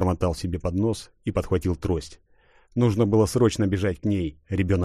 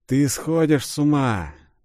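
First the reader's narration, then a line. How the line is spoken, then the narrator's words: Purring inner voice. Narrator (Russian): Чеширским котом промурлыкал его собственный голос, поднявшись из глубин сознания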